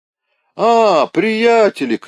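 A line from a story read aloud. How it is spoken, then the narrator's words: Shouted. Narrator (Russian): крикнул председатель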